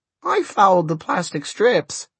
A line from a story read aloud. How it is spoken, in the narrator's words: squeaked Fidelito